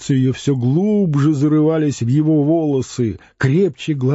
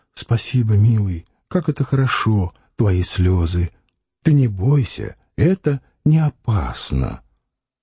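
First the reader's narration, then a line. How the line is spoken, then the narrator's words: Broken whisper. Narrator (Russian): прерывистый шепот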